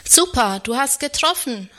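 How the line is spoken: Call. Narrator (German): ruft er

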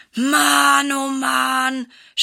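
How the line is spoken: Groaning. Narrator (German): stöhnt Silas

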